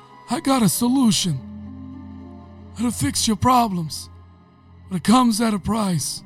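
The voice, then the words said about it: Godfather-style mob boss voice. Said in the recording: “doing the Godfather voice ... mob boss level”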